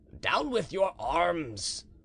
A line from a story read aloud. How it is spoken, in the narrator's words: cried Murat